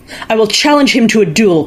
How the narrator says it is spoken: cried Jukahainen

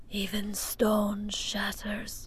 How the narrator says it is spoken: she whispered

